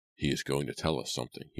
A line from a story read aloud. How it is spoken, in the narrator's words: he whispered